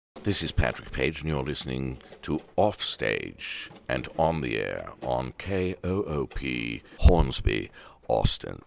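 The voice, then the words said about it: Exaggerated put-on accent. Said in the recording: “That's a ridiculous accent. That's not how I really sound.”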